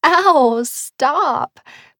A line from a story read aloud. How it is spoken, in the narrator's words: Pip laughed